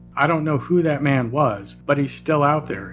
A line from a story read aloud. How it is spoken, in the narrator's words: finally said